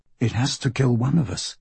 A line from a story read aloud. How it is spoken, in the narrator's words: Celia says quietly